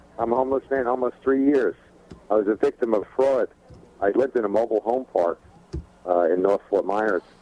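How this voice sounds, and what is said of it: Heavy New York accent. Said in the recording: “I'm a New Yorker with a heavy northern accent, a little different than most down here in the South”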